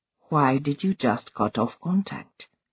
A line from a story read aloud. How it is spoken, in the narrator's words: repeated quietly